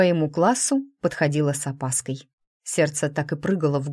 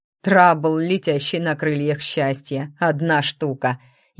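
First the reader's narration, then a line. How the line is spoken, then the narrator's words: Snide remark. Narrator (Russian): ехидно прокомментировал Глен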